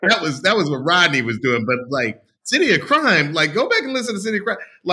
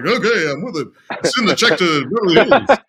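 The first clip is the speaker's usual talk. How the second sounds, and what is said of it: Imitates another person's voice. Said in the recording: “that's a good impression.”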